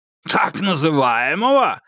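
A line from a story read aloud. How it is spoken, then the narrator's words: Barked. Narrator (Russian): рявкнул Клеменс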